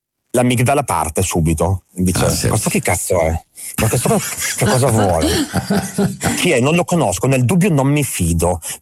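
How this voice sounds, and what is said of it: Brescian Italian accent. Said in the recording (Italian): “ha accento bresciano”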